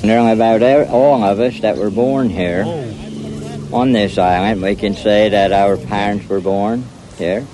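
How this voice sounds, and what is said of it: Thick Tangier Island accent. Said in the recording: “the Tangier Island accent ... the closest accent here in America to the original colonial American accent ... it sounds like a complete other language ... You can barely understand what they're even saying.”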